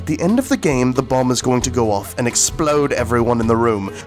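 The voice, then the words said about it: Put-on British theatre accent. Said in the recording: “talking in British accents ... It was good. It was really good. It was good hearing you in your theater accent.”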